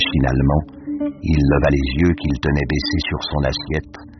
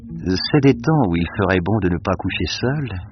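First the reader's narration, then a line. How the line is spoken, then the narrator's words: Dreamy woman's voice. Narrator (French): fit la femme d'un ton rêveur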